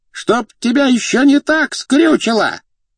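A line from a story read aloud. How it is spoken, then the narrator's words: Yelling behind a wall. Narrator (Russian): вопила из-за стены кухарка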